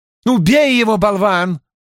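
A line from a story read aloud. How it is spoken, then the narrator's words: Shouted. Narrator (Russian): закричала женщина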